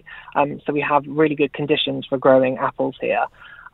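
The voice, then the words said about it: Southwest English accent. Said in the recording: “as you might be able to tell from my accent, from England and down in the southwest of England”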